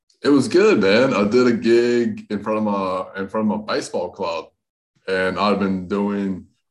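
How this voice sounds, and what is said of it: Hybrid Southern US and Australian accent. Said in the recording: “got a bit of an accent. ... I got this hybrid Southern Australian accent ... you sound Australian”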